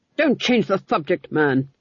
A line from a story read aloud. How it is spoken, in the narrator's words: snapped the Duke